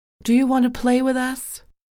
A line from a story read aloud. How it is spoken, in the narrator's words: Mary, a lone figure on the path, turned and called out